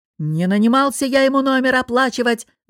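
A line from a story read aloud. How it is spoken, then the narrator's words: Yelling, voice giving out. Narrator (Russian): заорал босс, но его голос решил, что с него хватит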